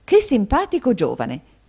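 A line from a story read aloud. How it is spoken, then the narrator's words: Woman exclaiming. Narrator (Italian): esclamò la signora Kenwigs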